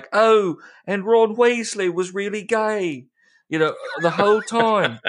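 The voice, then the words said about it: Put-on British accent. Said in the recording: “I appreciate your British accent in this”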